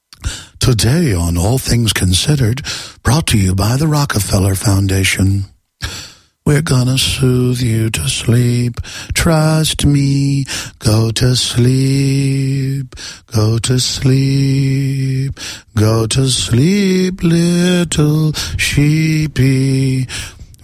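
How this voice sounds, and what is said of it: Soft, soothing public-radio announcer voice. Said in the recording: “let me do an NPR voice”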